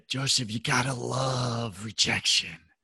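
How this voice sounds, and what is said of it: Imitates another person's voice. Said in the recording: “How's my impersonation? Am I doing all right?”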